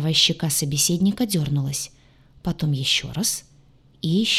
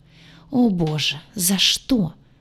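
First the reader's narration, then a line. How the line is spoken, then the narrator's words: Despairing moan. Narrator (Russian): простонала в отчаянии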